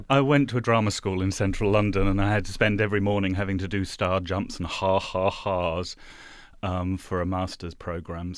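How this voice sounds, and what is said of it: Distinguished, rounded refined English accent. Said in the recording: “his accent is not like any accent ... really distinguished, you know, sort of beautifully rounded”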